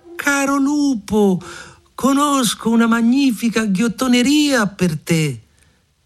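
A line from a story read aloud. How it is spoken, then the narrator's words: Muffled shout from belly. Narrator (Italian): dalla pancia gridò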